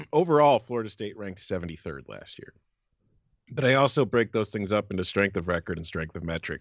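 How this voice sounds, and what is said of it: Phlegmy, throat-clearing voice. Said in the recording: “my voice is messed up ... I'm getting a little phlegmy”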